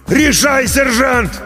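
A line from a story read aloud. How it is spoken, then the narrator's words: Loud yell close by. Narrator (Russian): Прямо над ухом заорал артиллерист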